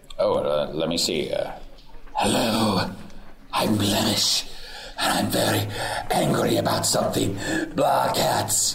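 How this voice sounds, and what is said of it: Imitates another character's voice. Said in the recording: “You don't have a good Blemish impression?”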